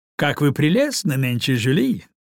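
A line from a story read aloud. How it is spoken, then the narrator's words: Cheerful exclamation. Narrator (Russian): воскликнул он весело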